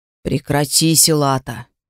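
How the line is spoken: Conciliatory mumble. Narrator (Russian): примиряюще пробурчал Искал

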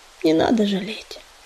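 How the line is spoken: Sad. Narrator (Russian): печально сказал он

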